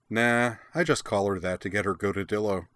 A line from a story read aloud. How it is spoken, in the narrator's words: Karana said cheerfully